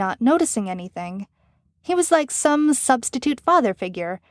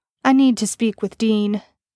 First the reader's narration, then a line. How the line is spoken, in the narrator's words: Suit Guy stated calmly